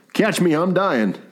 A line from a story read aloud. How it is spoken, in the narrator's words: said Wagner